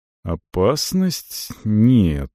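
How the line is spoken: Slow, meaningful. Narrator (Russian): сказал он медленно, подразумевая что-то другое

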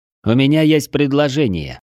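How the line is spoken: Loud, satisfied. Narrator (Russian): Обвожу удовлетворенным взглядом лица моих товарищей по оружию и громко говорю

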